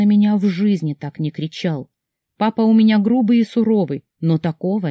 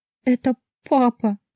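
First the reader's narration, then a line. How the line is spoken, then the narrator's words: Sobbing. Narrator (Russian): всхлипнула я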